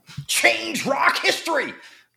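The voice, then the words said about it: Imitates another person's voice. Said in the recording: “That's my one Jack Black impression,”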